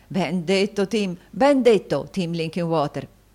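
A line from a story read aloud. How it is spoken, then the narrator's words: Joyful exclamation. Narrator (Italian): esclamò il fratello Carlo, appena meno lieto dello stesso Tim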